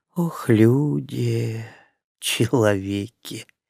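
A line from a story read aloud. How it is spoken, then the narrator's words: Faint sigh. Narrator (Russian): едва заметно вздохнула женщина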